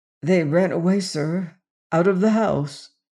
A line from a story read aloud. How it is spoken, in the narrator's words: explained the man huskily